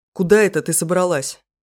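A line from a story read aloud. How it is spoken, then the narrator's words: Menacing question. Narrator (Russian): грозно спрашивает жнец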